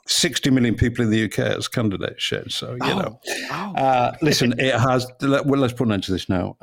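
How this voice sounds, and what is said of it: British accent. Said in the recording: “that British accent ... It sounds so professional.”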